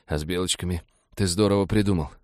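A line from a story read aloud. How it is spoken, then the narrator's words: Muttering through pain. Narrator (Russian): пробормотал он, когда молча терпеть боль стало невыносимо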